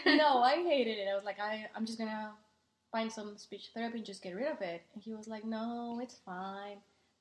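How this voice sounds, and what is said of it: Thick Mexican accent. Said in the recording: “you have a very like beautiful thick Mexican ... Accent”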